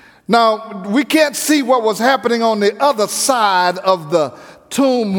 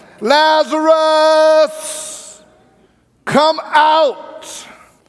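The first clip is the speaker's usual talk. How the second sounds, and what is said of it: Loud shouted call. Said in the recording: “He said in a loud voice,”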